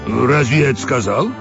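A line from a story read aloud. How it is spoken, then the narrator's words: Snorting. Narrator (Russian): Серая кобыла фыркнула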